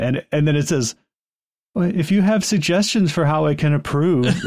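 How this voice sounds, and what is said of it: Usual voice. Nothing is said of it.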